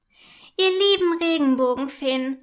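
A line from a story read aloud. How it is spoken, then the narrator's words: Enthusiastic call. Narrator (German): ruft sie begeistert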